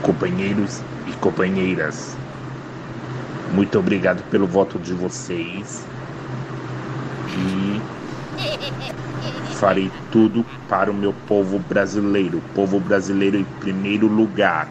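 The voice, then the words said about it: Imitation that drifts between voices. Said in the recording (Portuguese): “Ele foi, ele foi de Lula a, a, a, ... Marcelo Clodovil. Rezende, ... A imitação dele foi caindo, assim. ... o Lula, depois de uma gripe.”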